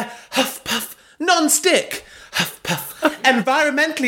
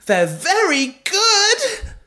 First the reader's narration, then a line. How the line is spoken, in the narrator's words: screamed Belinda mid-bonk